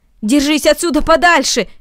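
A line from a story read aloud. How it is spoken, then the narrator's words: Shout. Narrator (Russian): крикнул Ноэль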